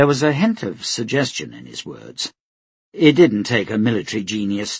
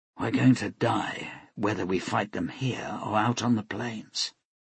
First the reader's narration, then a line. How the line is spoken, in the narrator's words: Quietly, so as not to be overheard, she said